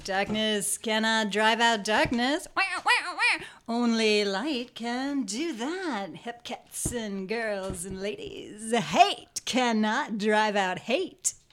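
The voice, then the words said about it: Jazz DJ character voice. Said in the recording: “This is not an accent either, but a character. ... It was Jazz DJ.”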